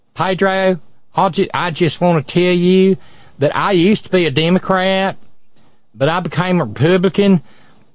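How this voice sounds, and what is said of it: Deep Southern Appalachian accent. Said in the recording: “she had that deep Southern Coalfields accent”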